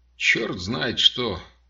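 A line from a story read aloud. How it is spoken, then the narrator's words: Muttering. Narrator (Russian): пробормотал я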